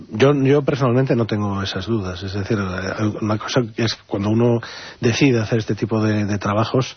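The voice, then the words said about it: Galician Spanish accent. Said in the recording (Spanish): “Por tu acento lo habrán reconocido muchos de los oyentes, vienes de Galicia”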